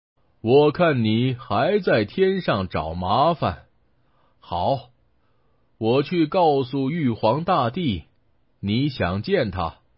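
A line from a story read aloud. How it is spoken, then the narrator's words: Smiling. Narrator (Chinese): 大臣笑着说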